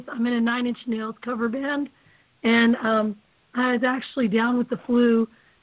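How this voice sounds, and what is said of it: Hoarse, nearly lost voice. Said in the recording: “lost my voice ... just blew my voice out completely”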